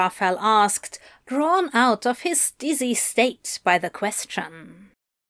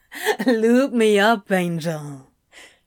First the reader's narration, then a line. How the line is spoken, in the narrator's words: Crowley said with a breathy laugh